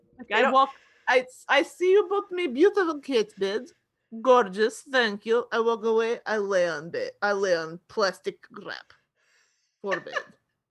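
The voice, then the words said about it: Put-on Russian accent. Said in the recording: “He's German. I can't do that accent. ... I can't do Danish. So now he's just Russian.”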